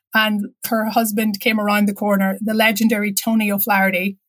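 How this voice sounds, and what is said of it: Irish accent. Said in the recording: “are you Irish? She heard my accent.”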